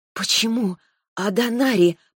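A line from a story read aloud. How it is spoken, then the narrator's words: Hoarse rasp. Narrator (Russian): прохрипела я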